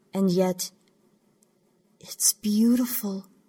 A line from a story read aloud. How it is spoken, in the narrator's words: Zakittel said, her voice catching and quivering in her throat